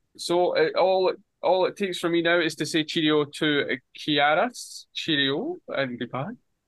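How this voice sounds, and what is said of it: Scottish accent. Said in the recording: “your Scottish accent. It's always lovely to hear.”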